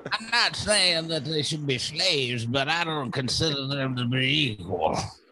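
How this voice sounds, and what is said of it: Abraham Lincoln impression. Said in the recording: “That was a good Lincoln impression. That really sounded.”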